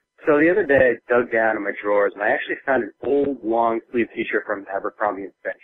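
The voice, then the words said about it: Congested voice from a cold. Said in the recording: “I've got a cold, so I'm going to kind of sound a little crappy”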